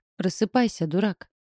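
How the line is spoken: Thin echoing little voice. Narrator (Russian): Тоненький голосок, отдавшийся эхом в ушах Арджуна

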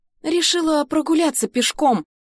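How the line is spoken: Confused reply. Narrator (Russian): растерянно отвечаю я, не понимая, с чем связана такая бурная реакция

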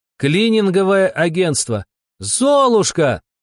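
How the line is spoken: Shouted in chorus. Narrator (Russian): хором крикнули альтушки вместе с охранником

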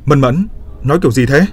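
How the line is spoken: Raised voice. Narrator (Vietnamese): Trác Mộc Cường Ba cao giọng

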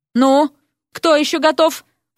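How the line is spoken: Sighing question. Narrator (Russian): вздохнув, поинтересовался Эрик

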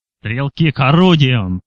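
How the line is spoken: Bark. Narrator (Russian): рявкнул Килпеппер

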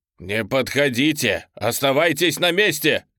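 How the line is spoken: Shout. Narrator (Russian): крикнул

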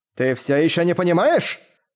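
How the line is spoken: Angry shout. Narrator (Russian): зло выкрикнул голос Фибрицио

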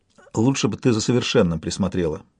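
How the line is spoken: Plain. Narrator (Russian): сказала Альтия

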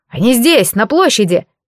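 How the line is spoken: Shout. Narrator (Russian): выкрикнул кто-то

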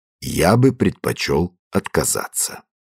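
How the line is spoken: Very quiet, clear voice. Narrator (Russian): ответил необыкновенно тихим, ясным голосом

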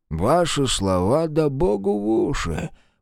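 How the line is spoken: Grumbling under breath. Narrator (Russian): проворчал себе под нос Левицкий

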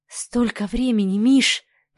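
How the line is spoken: Whisper. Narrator (Russian): прошептала Оксана

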